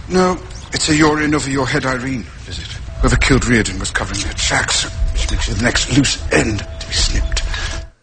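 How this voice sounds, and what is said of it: Put-on accent. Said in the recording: “another accent ... Another accent coming from Robert Downey Jr.”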